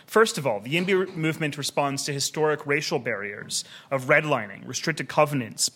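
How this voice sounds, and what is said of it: American accent. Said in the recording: “as you can tell from my accent, I also was conceived in the United States”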